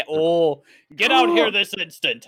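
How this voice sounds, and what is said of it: Loud stern dad voice. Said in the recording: “With my loud ass Goliath voice ... Your dad voice.”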